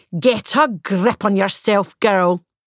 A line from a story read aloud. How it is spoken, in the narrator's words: she said harshly